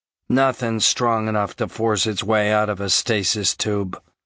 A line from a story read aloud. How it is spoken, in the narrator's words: Hicks said evenly